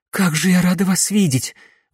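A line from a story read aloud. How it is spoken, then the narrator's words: Breathless, joyful. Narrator (Russian): выдохнула Камилла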